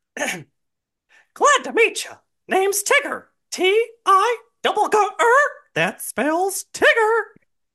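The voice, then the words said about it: Mickey Mouse character voice. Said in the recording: “I am Mickey Mouse, and we are gonna spin the wheel to see what quote I get to do.”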